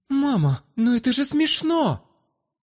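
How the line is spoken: Daughter exclaiming. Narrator (Russian): воскликнула дочь

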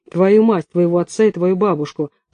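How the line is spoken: Growled. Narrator (Russian): прорычала Люська

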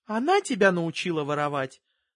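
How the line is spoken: Plain. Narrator (Russian): спросила мама

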